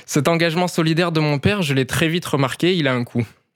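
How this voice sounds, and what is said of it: Light sing-song Marseille accent. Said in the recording (French): “vous savez d'où me vient ce léger accent chantant”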